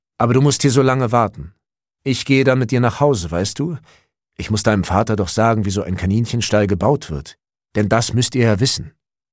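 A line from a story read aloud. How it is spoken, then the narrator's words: Calling while walking away. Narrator (German): rief der Mann schon im Weggehen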